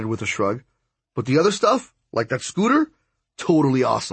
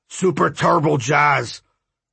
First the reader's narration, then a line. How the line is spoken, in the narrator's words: Jazz grunted